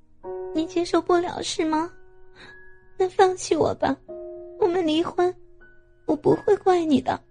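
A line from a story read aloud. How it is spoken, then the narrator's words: Tearful, crying voice. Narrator (Chinese): 敏敏带着哭泣的声音对他说道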